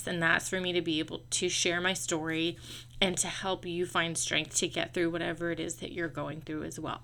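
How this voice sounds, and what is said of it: Emotional, voice close to tears. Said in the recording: “Sorry, I'm getting emotional.”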